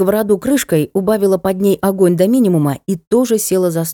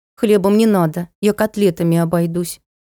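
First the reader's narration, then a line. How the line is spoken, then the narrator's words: Glum joking sister. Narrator (Russian): уныло пошутила сестрица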